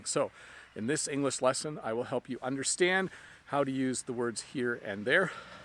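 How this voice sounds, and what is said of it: Out of breath. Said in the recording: “I'm a little bit out of breath.”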